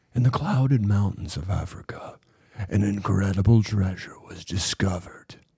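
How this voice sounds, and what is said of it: Movie trailer narrator voice. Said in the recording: “your fucking Garth impression. ... No, this is the movie guy voice.”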